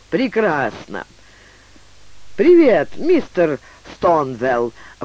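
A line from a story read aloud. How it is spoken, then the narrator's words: Exclaiming. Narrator (Russian): воскликнула она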